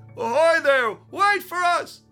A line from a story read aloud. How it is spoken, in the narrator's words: they yelled